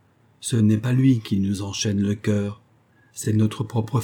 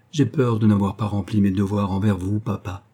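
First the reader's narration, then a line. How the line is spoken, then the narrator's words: Plain. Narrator (French): dit-elle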